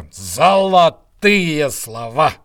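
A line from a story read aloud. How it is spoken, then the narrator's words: Booming drone. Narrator (Russian): прогудел Борис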